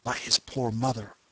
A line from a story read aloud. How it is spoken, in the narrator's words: I whispered